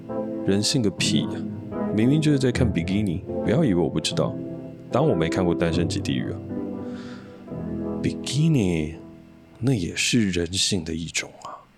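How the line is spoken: Sighing. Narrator (Chinese): 亮仔叹息道

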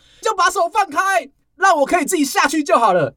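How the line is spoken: Loud, desperate. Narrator (Chinese): 往下坠的那个人会不会大声的告诉你说

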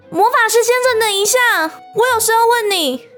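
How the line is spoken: Hurried calling out. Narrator (Chinese): 渊羽慌忙喊住他

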